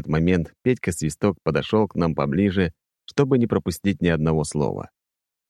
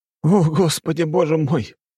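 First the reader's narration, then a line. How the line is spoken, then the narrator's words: Moaning. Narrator (Russian): простонал Нарышкин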